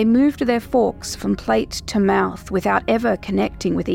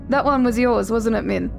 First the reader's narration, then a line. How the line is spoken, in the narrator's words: Jonathan laughed awkwardly into his plate, rambling at lightning speed